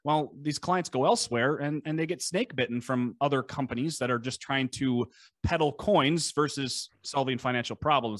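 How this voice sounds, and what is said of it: Scandinavian-tinged Minnesota accent. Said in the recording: “if you can hear my lovely Scandinavian accent, we're in Buffalo, Minnesota.”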